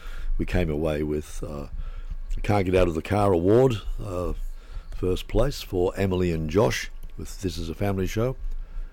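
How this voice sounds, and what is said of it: Slightly hoarse voice. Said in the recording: “my voice is a little hoarse today”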